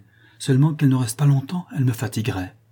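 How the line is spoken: Calm voice. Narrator (French): dit-il d'une voix tranquille

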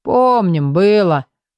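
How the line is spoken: Gloomy guards speaking. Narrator (Russian): мрачно заговорили стражи

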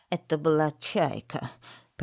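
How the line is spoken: Creaky old woman. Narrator (Russian): проскрипела старая тетка

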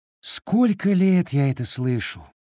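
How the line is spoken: Weary sigh, female boss. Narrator (Russian): устало вздохнула начальница

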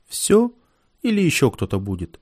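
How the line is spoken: Calm teenage voice asking. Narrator (Russian): Какой-то паренек лет 16 спокойным голосом уточнил

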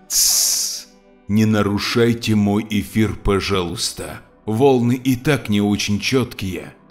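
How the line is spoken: Hissed hush. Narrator (Russian): Виталий прошипел

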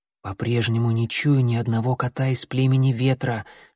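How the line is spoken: Whisper. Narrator (Russian): шепнул он Клубку

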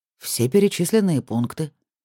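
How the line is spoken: Calm reply. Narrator (Russian): спокойно ответил Ник

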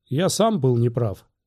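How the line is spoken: Cheerful. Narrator (Russian): весело сказал Оби-Ван

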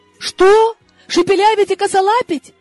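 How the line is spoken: Shuddering exclamation. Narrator (Russian): Содрогаясь, воскликнула я

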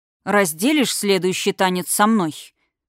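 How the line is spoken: Icy tone. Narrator (Russian): прозвучало ледяным тоном

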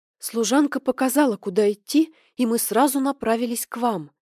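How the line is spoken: Breathed out. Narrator (Russian): выдохнула Синьок

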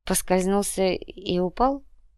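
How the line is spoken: Mumble. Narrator (Russian): пробормотала Ирина

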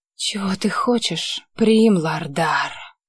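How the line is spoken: Hoarse question. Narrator (Russian): спросила сипло Лите

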